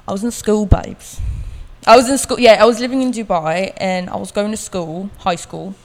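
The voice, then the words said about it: Put-on British Cockney accent. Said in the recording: “I like doing a British Cockney sometimes.”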